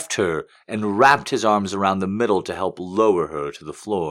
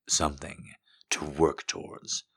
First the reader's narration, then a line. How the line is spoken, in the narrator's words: he murmured in her ear